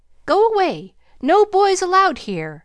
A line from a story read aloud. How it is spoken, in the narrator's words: the parrot, sitting on the back of her chair, called out